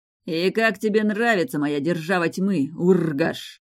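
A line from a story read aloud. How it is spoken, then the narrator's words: Growled. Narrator (Russian): прорычал Риз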